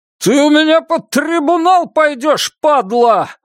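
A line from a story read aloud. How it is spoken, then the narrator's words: Yelling. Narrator (Russian): вопит Монкберг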